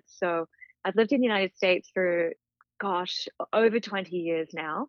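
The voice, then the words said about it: Mixed international accent. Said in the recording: “you probably tell from my accent that I am a plethora of different citizenships”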